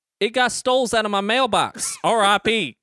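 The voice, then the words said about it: Reads in a put-on accent. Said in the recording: “I want to know where that accent came from.”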